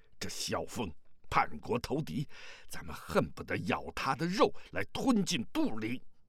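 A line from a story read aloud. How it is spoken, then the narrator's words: Hateful, through gritted teeth. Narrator (Chinese): 更有几名契丹人咬牙切齿地说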